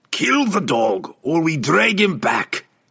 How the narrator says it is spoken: Bruno growled, his patience exhausted

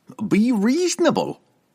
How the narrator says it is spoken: Cobble whined back at her

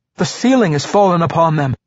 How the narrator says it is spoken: cried, pointing frantically

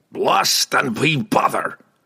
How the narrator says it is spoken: Brunner roared

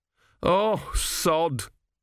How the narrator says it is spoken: moaned Gurn

